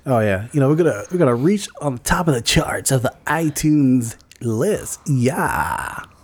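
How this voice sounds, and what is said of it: Exaggerated radio DJ voice. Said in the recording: “That's my whack-ass radio DJ voice.”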